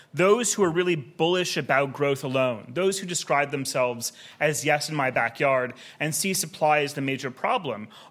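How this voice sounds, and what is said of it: American accent. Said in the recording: “as you can tell from my accent, I also was conceived in the United States”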